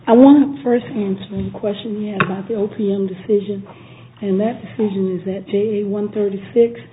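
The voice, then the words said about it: Impaired, unwell-sounding voice. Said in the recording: “please excuse my voice.”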